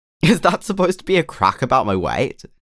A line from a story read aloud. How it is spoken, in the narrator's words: Dick asked, laughing